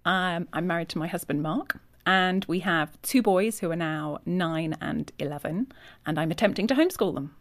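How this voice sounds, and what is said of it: English Yorkshire accent. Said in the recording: “I noticed that accent. So you're from England. ... I'm from England, from Yorkshire.”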